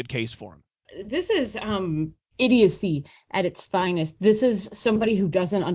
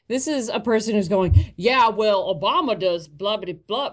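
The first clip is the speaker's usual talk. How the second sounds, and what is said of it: Slipping into a Southern accent. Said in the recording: “Oh, I'm starting to go into Southern accent.”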